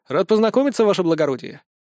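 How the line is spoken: Dry. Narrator (Russian): сухо отвечаю

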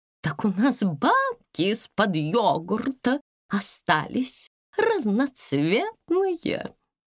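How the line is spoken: Plain. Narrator (Russian): сказал Пуш

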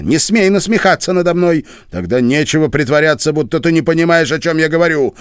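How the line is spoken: Sharp shout. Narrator (Russian): прикрикнул на нее Пол

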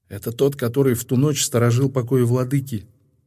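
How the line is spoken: Quiet. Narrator (Russian): тихо сказал Нуон

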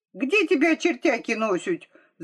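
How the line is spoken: Shout. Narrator (Russian): закричала Липа

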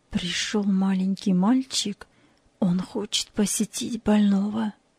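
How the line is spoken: Quiet. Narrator (Russian): тихо сказал ей

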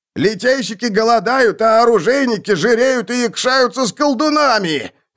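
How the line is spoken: Crowd yelling. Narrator (Russian): вопили другие

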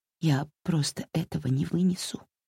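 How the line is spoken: Whisper, female. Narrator (Russian): прошептала она

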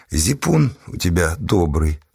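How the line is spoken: Plain. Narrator (Russian): сказала кабачица

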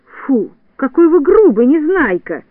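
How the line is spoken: Exclaiming. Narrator (Russian): воскликнула Снежинка

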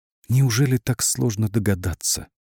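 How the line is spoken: Whispered. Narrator (Russian): прошептала

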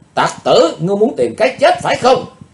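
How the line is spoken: Loud shout. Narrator (Vietnamese): Chàng dốt hét to lên

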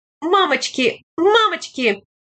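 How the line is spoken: Young woman's inconsolable whimpering cries. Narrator (Russian): Молодой бабий голос безутешно скулил и время от времени вскрикивал

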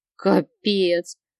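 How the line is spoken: Grumble. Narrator (Russian): проворчала я

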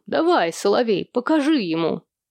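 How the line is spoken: Good-natured laugh. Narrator (Russian): Он добродушно рассмеялся

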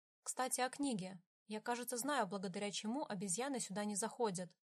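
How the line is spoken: Plain. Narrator (Russian): сказал Михаэль

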